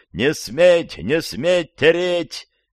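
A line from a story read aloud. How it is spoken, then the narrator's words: Shouting over everyone. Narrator (Russian): перекрывая всех, заорал Борис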